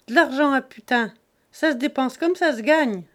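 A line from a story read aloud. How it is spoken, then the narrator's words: Sneering. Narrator (French): ricana Jésus-Christ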